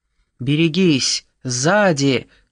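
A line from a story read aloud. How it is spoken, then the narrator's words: Shouted from above. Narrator (Russian): крикнул сверху Костас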